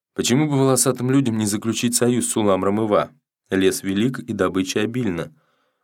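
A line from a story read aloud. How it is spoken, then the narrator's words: Soft, gentle. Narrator (Russian): Зур сказал мягко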